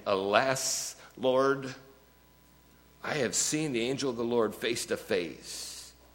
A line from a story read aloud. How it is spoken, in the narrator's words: when Gideon realized it was the angel of the Lord, he exclaimed